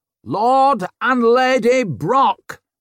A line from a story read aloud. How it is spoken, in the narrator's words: bellowed Glarwood